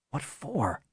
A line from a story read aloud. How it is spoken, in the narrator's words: Bennett whispered, trying not to wake Aaron